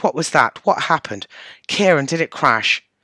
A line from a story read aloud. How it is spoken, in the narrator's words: she exclaimed